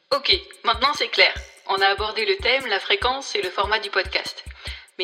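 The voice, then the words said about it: Sing-song Nice southern French accent. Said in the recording (French): “je suis niçoise, d'où l'accent chantant que je peux avoir parfois”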